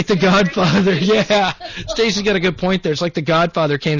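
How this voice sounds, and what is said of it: Usual voice. Nothing is said of it.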